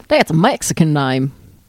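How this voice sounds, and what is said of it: Put-on Texas accent. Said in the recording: “Was that an Australian accent you popped out?... No, that was Texas.”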